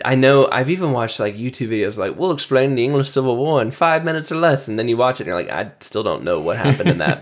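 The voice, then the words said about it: American accent. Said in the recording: “and I are from America ... if you couldn't tell by our accents”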